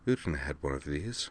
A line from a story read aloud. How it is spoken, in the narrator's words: murmured